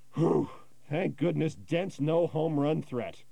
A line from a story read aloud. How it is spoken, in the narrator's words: he sighs, and he sits back in his seat, and he says